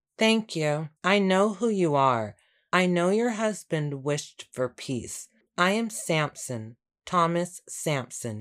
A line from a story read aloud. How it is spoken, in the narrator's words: he said